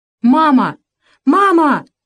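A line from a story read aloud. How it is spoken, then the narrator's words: Boy's fading shouts. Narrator (Russian): все еще кричал мальчик, но крики его с каждым разом становились тише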